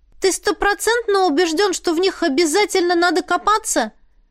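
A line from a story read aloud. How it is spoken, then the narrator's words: Shouted down, woman. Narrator (Russian): крикнула она оставшемуся внизу мужчине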